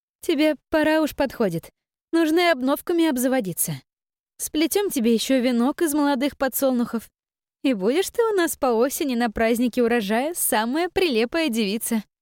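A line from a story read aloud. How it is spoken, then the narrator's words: Continuing. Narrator (Russian): продолжила Таша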